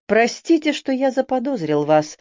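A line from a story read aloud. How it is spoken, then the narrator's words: Timid speech. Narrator (Russian): робко заговорил Йорк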